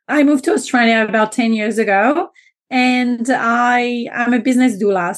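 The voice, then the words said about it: French accent. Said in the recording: “I am French, so you may already have noticed my accent”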